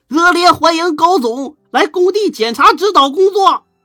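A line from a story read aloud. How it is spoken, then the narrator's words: Crowd shouting. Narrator (Chinese): 大伙开始喊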